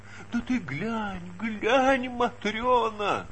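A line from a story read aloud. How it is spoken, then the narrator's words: Muttering with heavy sobs. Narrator (Russian): бормотала попадья, всхлипывая громко и тяжко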